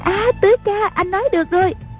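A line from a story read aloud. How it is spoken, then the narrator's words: Shouting. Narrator (Vietnamese): A Bích la lên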